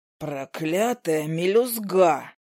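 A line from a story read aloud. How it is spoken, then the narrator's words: Hoarse snowman curse. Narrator (Russian): Сипло выругался снеговик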